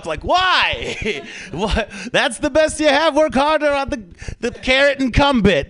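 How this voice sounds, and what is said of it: Bad put-on Jewish accent. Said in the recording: “That was the worst Jewish accent. I don't know what that was.”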